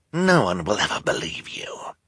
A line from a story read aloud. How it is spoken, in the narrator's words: Esme said in a sinister whisper